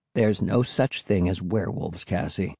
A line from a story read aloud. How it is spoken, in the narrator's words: Will muttered